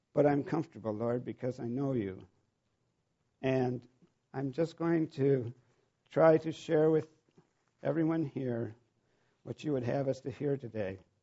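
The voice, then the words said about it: Shaky, nervous voice. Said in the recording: “my voice is a little shaky”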